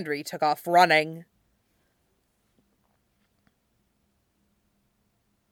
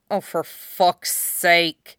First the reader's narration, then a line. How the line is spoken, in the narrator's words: She heard him mutter